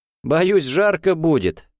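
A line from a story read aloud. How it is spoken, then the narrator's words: Laughing. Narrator (Russian): рассмеялся Гуров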